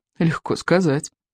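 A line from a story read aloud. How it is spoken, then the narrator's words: Sighed. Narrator (Russian): вздохнул Икинг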